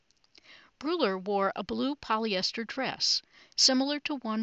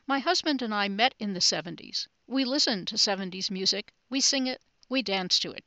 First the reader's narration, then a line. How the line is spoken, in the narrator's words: she said